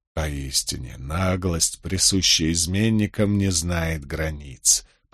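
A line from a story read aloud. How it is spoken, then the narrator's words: Muttering. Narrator (Russian): пробормотал он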